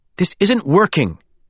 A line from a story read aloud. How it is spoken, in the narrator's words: Meredith snapped